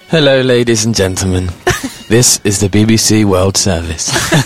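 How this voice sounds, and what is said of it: British BBC announcer voice. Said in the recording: “that was amazingly accurate ... He's got a really good British accent.”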